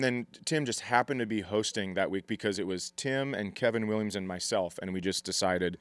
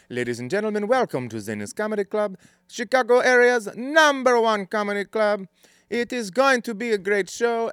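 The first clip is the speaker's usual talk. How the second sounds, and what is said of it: Mexican-accented club announcer voice. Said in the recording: “grew up in Mexico ... he had an accent, but it was the most delightful voice you could ever hear from a sound booth”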